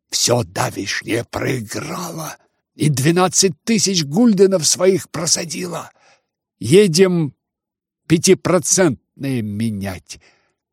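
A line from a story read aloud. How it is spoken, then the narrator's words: Hurried whisper. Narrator (Russian): шепнул я ему наскоро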